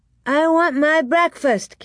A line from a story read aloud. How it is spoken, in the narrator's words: Carrie shouted